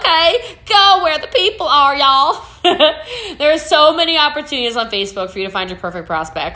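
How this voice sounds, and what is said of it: Put-on Eastern Texas accent. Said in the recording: “Let's do the rest of the podcast in this here Eastern Texas accent.”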